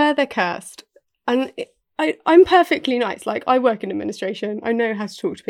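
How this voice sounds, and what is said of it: Usual voice. Nothing is said of it.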